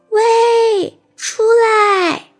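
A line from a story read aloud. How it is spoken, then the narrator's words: Loud shout. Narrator (Chinese): 女孩对着洞里使劲的大喊了一声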